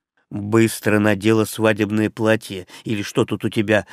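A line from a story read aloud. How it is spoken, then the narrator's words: Commanding. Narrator (Russian): скомандовал я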